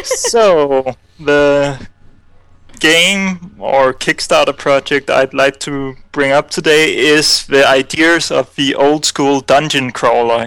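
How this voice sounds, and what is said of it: Foreign accent. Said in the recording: “Another awesome accent”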